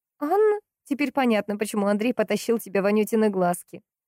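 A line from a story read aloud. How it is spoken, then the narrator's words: Cheerful laughter. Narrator (Russian): весело рассмеялась Поликсина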